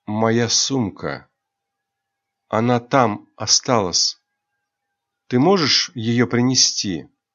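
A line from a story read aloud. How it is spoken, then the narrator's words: Lost, sad voice. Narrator (Russian): Айрин каким-то потерянным голосом грустно произнесла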